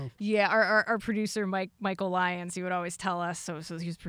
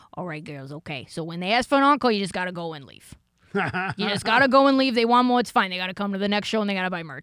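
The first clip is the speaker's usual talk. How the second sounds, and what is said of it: Exaggerated Boston accent. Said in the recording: “I'm gonna do my best wicked Boston accent”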